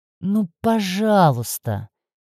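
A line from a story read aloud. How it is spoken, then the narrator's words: Drawn-out pleading. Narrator (Russian): протянул он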